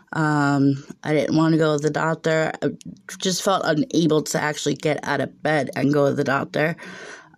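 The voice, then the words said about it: Sick, congested voice. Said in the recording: “You could probably tell by my voice, maybe, that I am once again super, super sick... a really bad sinus infection”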